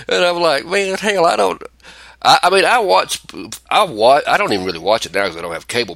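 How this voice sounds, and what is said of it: Noticeable regional accent. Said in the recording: “my accent because the first time people start hearing me talk, they think I'm dumb as shit”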